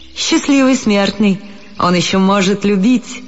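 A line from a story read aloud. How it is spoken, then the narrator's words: Laughing. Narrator (Russian): засмеялся француз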